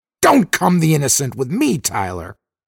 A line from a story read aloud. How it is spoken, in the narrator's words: Dixon snapped, slightly shrill